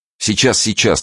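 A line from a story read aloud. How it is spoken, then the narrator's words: Hurried reply. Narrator (Russian): торопливо отозвался Николка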